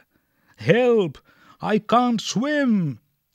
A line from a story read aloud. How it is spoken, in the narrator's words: he cried